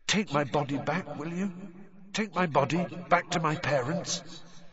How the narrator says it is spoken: whispered the figure of Cedric

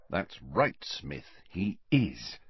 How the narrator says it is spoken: muttered Harry, grinning to himself

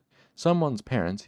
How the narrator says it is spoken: he said

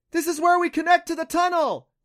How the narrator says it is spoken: Clancy shouted from Neff's back

